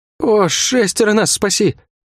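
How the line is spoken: Groaning. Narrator (Russian): Не сказал, а простонал гвардеец

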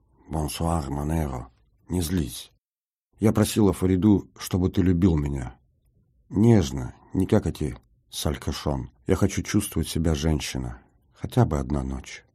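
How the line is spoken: Tender whisper in ear. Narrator (Russian): нежный голос зашептал в ухо

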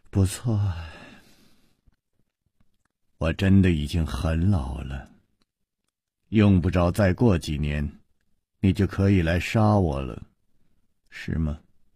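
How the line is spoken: Sighing. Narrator (Chinese): 石观音又叹了一口气说

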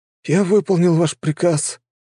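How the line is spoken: Weak rasp. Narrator (Russian): прохрипел паренек

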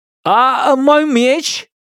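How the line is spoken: Shouting after someone. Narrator (Russian): крикнул я вдогонку сестрам

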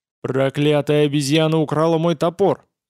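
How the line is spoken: Growled angrily. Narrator (Russian): зарычал тот

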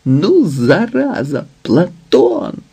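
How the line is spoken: Laughing and crying. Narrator (Ukrainian): Сміявся і плакав

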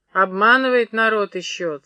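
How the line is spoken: Mocking, through teeth. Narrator (Russian): цедил Юргин, насмешливо

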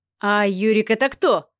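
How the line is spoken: Short laugh. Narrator (Russian): хохотнул Леха

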